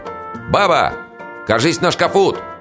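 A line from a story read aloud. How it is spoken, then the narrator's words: Shouted. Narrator (Russian): крикну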